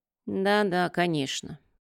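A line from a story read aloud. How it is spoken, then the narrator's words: Grumbling. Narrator (Russian): проворчал Морей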